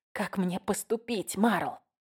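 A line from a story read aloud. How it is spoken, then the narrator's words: Whispered question. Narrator (Russian): я спросила шепотом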